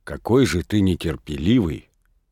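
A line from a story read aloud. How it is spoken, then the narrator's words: In a low voice. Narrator (Russian): говорила она ему вполголоса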